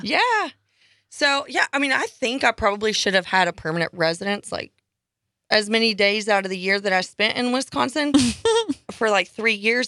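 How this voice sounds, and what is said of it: Non-local accent. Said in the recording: “I don't think people mistake you for a local, though, do they? ... with that accent”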